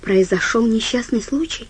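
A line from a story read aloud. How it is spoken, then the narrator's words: Female whisper. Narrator (Russian): прошептала она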